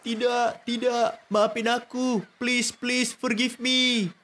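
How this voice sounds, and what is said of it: Shouting in panic. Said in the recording (Indonesian): “teriak-teriak.”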